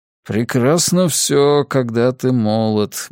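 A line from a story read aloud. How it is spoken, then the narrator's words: Muttered under breath. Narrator (Russian): буркнул он себе под нос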